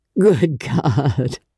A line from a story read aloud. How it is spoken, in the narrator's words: He groaned again